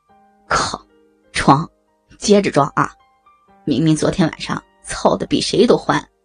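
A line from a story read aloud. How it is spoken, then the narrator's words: With a smile. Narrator (Chinese): 赵龙也笑了笑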